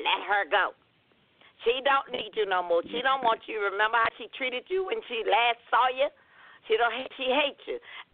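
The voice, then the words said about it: Agitated weird voice playing the devil. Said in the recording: “He got that little weird voice... it's an agitated voice when Satan comes in”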